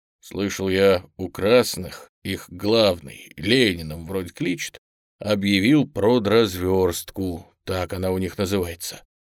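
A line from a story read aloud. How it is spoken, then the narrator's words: Gloomy. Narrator (Russian): Никифор мрачно молвил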